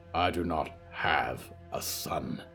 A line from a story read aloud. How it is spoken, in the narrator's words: spat